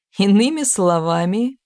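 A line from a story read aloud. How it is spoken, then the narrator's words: Audible laugh. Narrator (Russian): рассмеялся Грик, позволяя себя услышать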